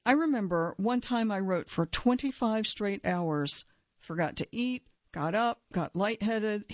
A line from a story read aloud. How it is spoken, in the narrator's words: he says